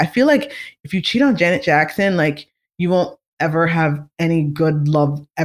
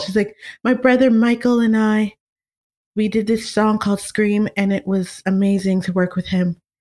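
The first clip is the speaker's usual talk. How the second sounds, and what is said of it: Soft, peaceful imitated female voice. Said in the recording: “such a peaceful voice like hers? She's so peaceful ... my Janet impression? Is that good?”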